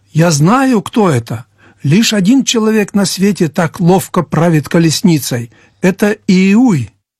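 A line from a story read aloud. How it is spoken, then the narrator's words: Sentry exclaims. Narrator (Russian): дозорный воскликнул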